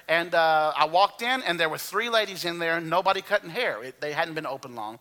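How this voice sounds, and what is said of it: Alabama Southern accent. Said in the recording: “my Alabama accent became greatly, you know, she greatly was aware of that ... she heard my accent”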